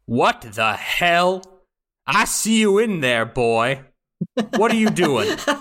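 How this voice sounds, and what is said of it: Angry Southern accent. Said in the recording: “He's gone completely Bluth. ... Southern accent here. ... he's like an angrier Bluth. ... The southern accents.”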